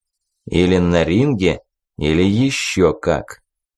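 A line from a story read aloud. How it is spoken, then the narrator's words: Threatening tone. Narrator (Russian): угрожающим тоном добавил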